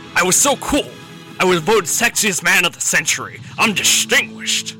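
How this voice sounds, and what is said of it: Sean Connery impression. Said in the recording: “Introduce yourself, Mr. Connery.”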